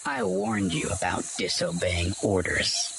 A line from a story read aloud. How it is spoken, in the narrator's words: he sneered